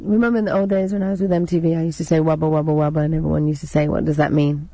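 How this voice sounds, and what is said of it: English accent. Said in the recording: “I like that English accent.”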